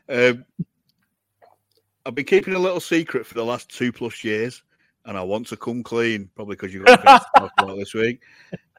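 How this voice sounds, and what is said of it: Imitates another person's voice. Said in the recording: “Do the voice. ... I can't do the voice. I can do the bro. I swear to God, and I sound like Mayor Quimby again.”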